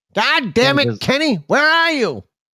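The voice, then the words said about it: Cartoon character voice impression. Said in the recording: “I feel like I should have the Cartman right now ... I should never do that voice again”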